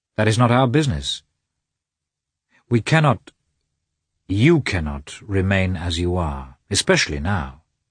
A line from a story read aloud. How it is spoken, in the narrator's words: said Vronsky in his usual firm, calm tone